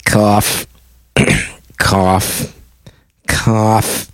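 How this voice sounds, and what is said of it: Imitated doctor's coughing. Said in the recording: “my impression of Dr. Leon Small”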